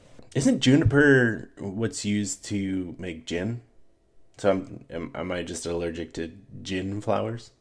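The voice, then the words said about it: Stuffy, congested voice. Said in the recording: “you can see if my face looks like how my voice sounds ... Just allergies attacking”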